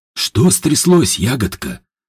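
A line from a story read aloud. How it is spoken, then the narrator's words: Smiling, calm, cautious. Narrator (Russian): улыбнулся Степан невозмутимо, спокойно, но осторожно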